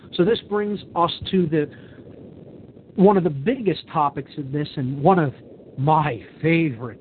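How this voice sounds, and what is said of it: Sarcastic tone. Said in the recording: “saying that sarcastically”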